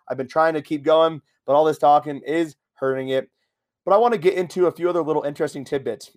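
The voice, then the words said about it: Strained voice, cracking. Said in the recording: “you might have heard my voice crack a couple of times. I'm losing my voice again. I lost my voice”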